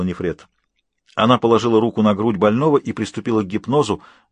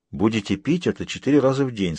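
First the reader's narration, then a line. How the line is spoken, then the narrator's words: Plain. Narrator (Russian): сказала она Небомону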